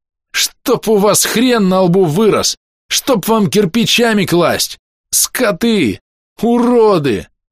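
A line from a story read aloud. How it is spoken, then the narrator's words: Shouting. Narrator (Russian): я еще кричал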